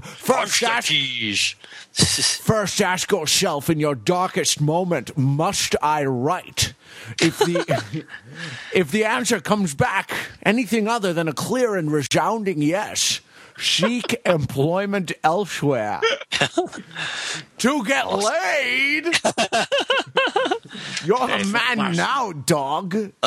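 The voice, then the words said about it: Flawless Sean Connery impression. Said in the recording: “That's a tour de Connery force. And that was a flawless impression, by the way. It was like looking in a Sean Connery mirror.”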